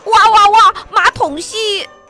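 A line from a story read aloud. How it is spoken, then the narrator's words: Howling in pain. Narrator (Chinese): David 的胳膊肘被砰的撞了一下，他嚎叫起来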